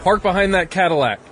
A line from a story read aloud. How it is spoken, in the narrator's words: He yelled